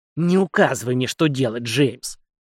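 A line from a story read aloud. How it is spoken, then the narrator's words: Contemptuous snort, old woman. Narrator (Russian): фыркнула старуха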